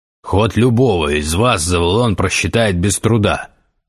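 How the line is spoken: Bark. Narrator (Russian): рявкнул Гессер

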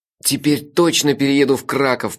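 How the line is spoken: Muffled groan, mouth full. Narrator (Russian): простонал я с набитым ртом

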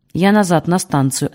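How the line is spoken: Curt, on the move. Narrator (Russian): отрывисто бросил Бердичевский на ходу

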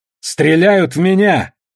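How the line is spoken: Shouted out. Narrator (Russian): выкрикнула Танака

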